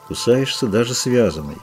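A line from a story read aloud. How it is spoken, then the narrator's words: Quiet, unaccented. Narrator (Russian): сказал он без акцента, тихо, на общем языке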